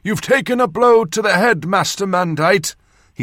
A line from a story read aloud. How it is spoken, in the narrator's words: he said very loudly, the way surgeons talk to their patients